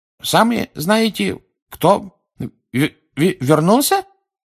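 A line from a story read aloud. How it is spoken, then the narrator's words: Forced out with effort. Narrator (Russian): с трудом выдавил он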